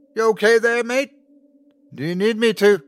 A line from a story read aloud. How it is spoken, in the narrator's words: Luke yelled